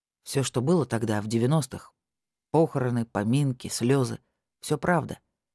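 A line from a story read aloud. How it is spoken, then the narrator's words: Calm steady voice. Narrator (Russian): таким же спокойным голосом продолжил участковый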